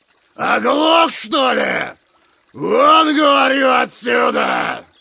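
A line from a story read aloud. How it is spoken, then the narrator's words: Monstrous squealing roar. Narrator (Russian): Зарычало чудище и исторгло из глубин своих звук, напоминающий нечто между визгом свиньи и рыком оленя-самца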